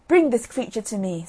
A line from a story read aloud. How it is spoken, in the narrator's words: says he